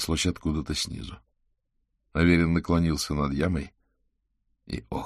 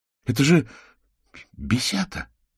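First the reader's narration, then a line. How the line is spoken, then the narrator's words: Breathless exhale. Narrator (Russian): выдохнул подоспевший к яме Манчинский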